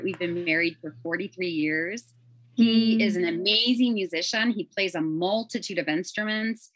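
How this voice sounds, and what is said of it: Chicago accent. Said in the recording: “Hear it. ... they ask me if I'm from Chicago. I never lost it ... I never lost my accent.”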